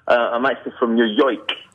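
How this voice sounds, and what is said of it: Put-on New York accent. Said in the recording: “clearly you're calling in from New Jersey ... That's the best accent I can do ... my accent is Scottish”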